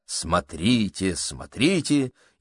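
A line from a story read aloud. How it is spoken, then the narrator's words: Free shouting. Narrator (Russian): миссис Адамс могла спокойно кричать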